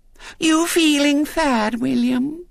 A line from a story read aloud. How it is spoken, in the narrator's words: she said sweetly